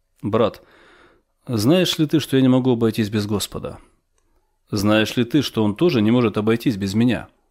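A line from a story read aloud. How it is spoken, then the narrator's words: Firm calm elderly voice. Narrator (Russian): 93-летнему старцу, он сказал твердым и спокойным голосом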